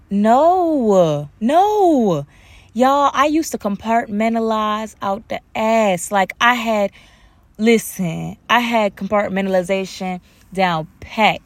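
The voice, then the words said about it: Relaxed natural accent, not code-switched. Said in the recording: “I'm gonna have to code switch back a little bit later in this podcast, because right now it just feels more comfortable just speaking my accent.”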